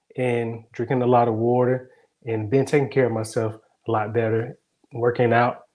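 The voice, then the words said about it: Congested voice from a cold. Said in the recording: “I was overcoming a cold and you could probably hear it in my voice. ... I still have some mucus going on”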